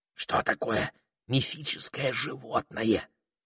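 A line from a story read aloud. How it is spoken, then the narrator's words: Whispered in ear. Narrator (Russian): шепнул Питер на ухо Саймону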